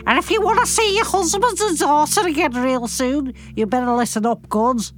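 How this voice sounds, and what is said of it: Put-on Scouse accent, villain voice. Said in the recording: “Why don't you choose another accent to do for him? ... Like a Scouse or something. ... That was very good.”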